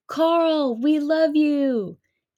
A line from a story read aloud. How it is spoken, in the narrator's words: I get Leslie and the guys to help me yell out